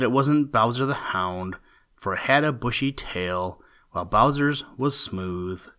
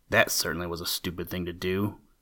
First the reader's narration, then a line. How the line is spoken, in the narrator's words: muttered Old Man Coyote to himself